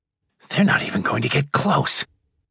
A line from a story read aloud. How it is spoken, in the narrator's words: breathed Rise, horrified